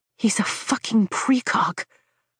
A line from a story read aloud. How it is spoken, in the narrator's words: I whisper in awe